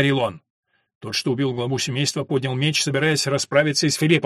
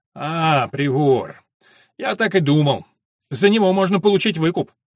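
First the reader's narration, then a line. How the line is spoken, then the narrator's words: Gruff bark. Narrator (Russian): Убийца отца девушки гаркнул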